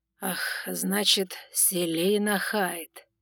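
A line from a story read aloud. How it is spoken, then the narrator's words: Sly drawl. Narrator (Russian): протянул красноголовый с хитрым прищуром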